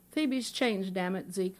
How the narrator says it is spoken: Warren said

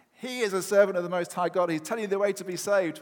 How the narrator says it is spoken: somebody start shouting

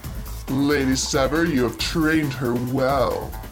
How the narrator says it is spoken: sneered Prince Darkspire

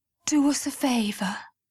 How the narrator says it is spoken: Lucy breathed

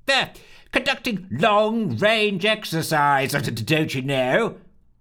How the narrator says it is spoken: he bellowed

